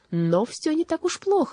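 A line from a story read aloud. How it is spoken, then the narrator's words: Exclaiming. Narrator (Russian): воскликнул он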